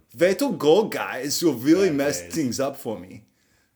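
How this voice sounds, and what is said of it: Cartoonishly awful German accent, Hitler. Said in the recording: “with like a funny, like cartoonishly awful German accent”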